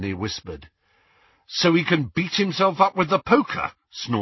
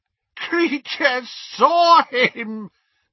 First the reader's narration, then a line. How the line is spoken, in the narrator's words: gasped the elf, as tears poured over his snout and into his mouth